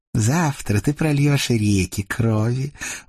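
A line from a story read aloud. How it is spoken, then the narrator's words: Purring. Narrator (Russian): мурлыкнула Агата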